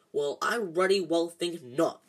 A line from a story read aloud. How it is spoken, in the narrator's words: growled Hagrid